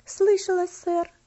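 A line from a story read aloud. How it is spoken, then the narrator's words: Quiet trembling girl's voice. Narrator (Russian): ответила девочка тихим, дрожащим голосом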